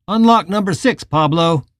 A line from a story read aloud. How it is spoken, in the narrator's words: the officer yelled